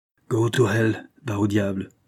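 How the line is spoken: Growled. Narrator (French): gronda Mathias Larsen

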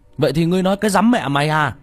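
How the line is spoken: Angry. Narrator (Vietnamese): Tiểu Mã giận dữ

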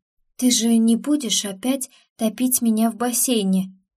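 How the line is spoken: Trembling-voiced question. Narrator (Russian): дрогнувшим голосом спросила я

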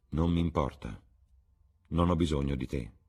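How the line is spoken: Cold. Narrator (Italian): disse Alan freddamente

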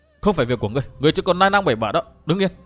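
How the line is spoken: Worried sharp shout. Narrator (Vietnamese): Sợ họ Vu gặp nguy hiểm, Liễu Tiểu Hồng quát chàng

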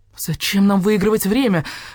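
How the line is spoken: Desperate exclamation. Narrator (Russian): в отчаянии воскликнул Барсукот

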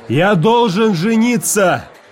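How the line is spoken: Shout. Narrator (Russian): крикнул я

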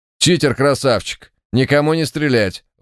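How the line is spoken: Barking radio. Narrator (Russian): вновь рявкнула рация

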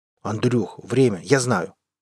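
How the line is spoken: Rude interruption. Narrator (Russian): грубо перебил

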